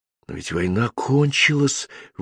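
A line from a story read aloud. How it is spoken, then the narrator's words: Breathed out. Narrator (Russian): выдохнул я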